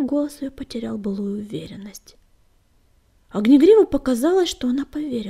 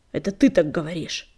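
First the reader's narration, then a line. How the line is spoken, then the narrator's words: Grumble. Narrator (Russian): буркнула синяя звезда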